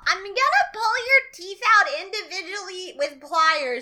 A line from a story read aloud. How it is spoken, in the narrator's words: Bernie's going to yell